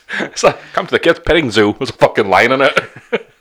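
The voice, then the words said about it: Dick Dastardly cartoon villain voice. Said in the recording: “I don't know why they've got that accent. ... I was trying to go like Dick Dastardly.”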